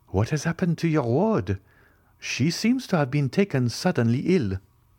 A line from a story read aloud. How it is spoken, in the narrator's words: exclaimed Eugénie